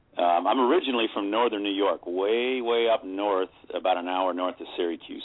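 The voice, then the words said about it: Faint mixed regional accent. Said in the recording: “I adopted just a tiny little bit of accent from every place I've ever been ... hey, where's that accent from? ... It's just a melting pot of accents”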